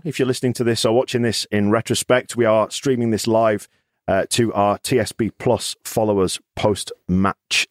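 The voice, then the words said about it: Croaky, tired-sounding voice. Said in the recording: “my voice is going up ... we do sound kind of knackered ... we're a little croaky, a little bit tired”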